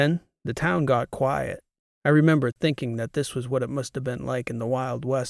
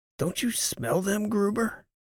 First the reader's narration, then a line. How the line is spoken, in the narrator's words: whispered